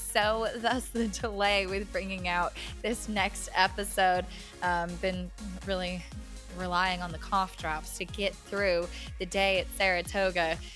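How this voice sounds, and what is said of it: Raspy, partly lost voice. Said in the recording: “I've got a little bit of a raspy voice ... only took me a few days to lose my voice.”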